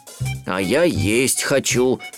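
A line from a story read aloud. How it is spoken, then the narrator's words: Grumbling. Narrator (Russian): ворчал Берлиоз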